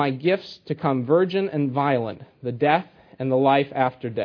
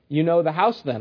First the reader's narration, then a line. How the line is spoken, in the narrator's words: I said